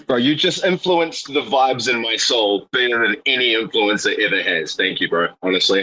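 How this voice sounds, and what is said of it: New Zealand accent. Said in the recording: “You sound Australian ... I'm from New Zealand, bro.”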